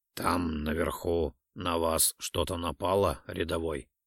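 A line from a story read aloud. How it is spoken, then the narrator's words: Quiet question. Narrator (Russian): негромко спросил капрал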